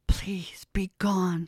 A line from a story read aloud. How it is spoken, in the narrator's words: she whispered with each step